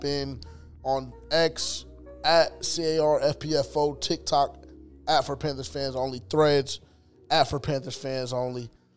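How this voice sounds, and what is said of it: Cracking, strained sick voice. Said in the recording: “My voice is going to be cracking a little bit today, battling sickness, ... battling the yelling that we were doing yesterday all day”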